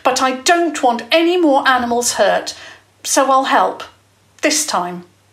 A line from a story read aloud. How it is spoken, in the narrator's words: Jasmine said fiercely